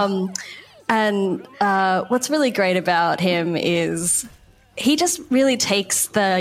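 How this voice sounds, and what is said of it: Usual voice. Nothing is said of it.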